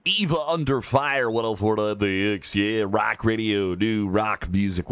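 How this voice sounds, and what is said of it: Exaggerated radio DJ voice. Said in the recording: “What if I actually talk like that all the time? If that was my dumb DJ voice?”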